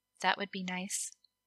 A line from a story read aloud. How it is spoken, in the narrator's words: she said quietly